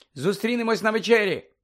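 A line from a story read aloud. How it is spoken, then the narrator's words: Exclaiming. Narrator (Ukrainian): вигукнула Герміона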